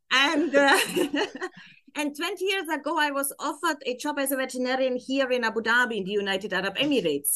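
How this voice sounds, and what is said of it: German accent. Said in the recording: “I can hear the accent. I can hear the accent... it's always the famous German accent”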